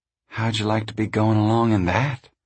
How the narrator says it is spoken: Connie sighed

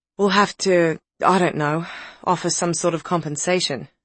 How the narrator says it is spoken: sighed Nick

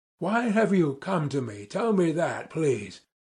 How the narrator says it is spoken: I began, gasping for breath and regardless of logical connection in my words

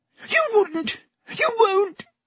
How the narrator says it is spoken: gasped Pettigrew

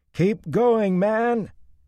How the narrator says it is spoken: he shouted at the top of his lungs

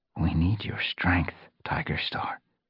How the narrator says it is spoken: Firestar whispered

